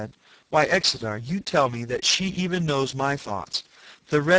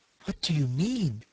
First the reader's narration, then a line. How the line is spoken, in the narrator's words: he whispered in an affrighted voice, so low that I could scarcely hear him